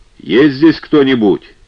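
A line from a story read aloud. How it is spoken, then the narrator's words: Shouting into darkness. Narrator (Russian): Продавец насекомых крикнул в эту тьму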